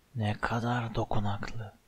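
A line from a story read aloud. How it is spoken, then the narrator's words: Hissing. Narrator (Turkish): diye tısladı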